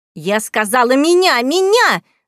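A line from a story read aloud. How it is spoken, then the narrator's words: Yelled. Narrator (Russian): заорала, вскочив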